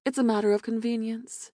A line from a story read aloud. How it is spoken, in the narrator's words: Aaron said smoothly